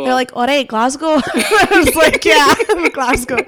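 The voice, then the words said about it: Convincing put-on Scottish accent. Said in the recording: “you got the accent nailed on”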